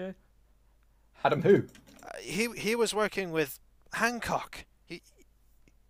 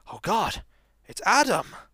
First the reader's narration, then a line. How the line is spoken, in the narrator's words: he immediately goes pale and gasps